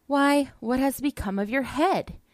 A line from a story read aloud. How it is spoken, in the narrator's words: the reapers all cried out